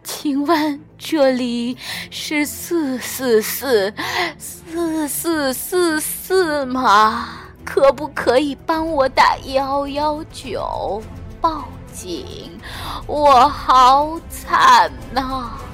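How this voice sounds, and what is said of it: Miserable, wailing voice. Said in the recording (Chinese): “用凄惨的声音说”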